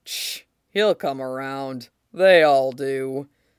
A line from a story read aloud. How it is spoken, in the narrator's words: Whitebeard says, with a grunt